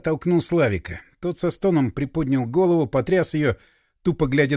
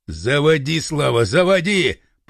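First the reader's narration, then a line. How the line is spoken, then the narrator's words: Growl. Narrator (Russian): прорычал Пашка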